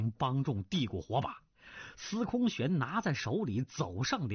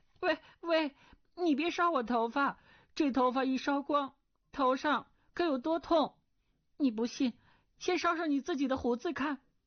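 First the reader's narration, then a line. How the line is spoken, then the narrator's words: Frightened cry. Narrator (Chinese): 钟灵……心中害怕，叫道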